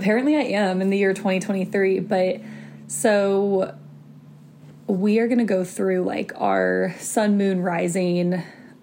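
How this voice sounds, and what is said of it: Hoarse, fading voice. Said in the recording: “Not me losing my voice again.”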